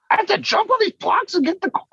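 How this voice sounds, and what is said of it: Imitates another person's voice. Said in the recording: “That sounded like Charlie Day trying to do a voice... Yeah, it's pretty decent, actually... That was really good.”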